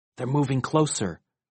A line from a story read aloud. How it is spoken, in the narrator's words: whispered Valerie